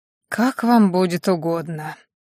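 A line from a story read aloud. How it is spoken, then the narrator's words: Priest's hoarse reply. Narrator (Russian): хрипло отозвался жрец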